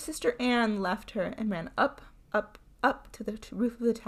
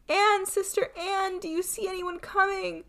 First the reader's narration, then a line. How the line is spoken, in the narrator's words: the unhappy Fatima cried up to her